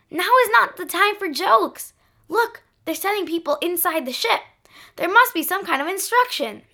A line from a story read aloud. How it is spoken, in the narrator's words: Melissa cried